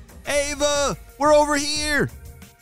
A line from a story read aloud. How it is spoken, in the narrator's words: shouted Jaden